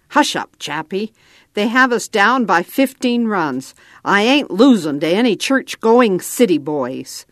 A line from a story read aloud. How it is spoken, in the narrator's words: Red growled